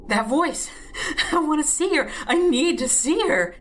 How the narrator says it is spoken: He giggled like a schoolboy mooning over a first crush

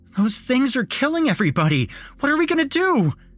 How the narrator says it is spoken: Nick pleaded

